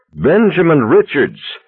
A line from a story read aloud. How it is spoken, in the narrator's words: the voice cried out with a cold, commanding Old Testament anger